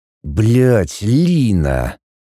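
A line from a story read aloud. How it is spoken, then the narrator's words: Hissed through teeth. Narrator (Russian): Сквозь зубы прошипел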